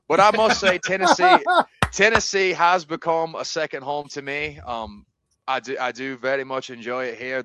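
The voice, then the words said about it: Scottish accent. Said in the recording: “where your accent is from ... So I am from Scotland ... So that is where you hear my accent from. The great nation of Scotland”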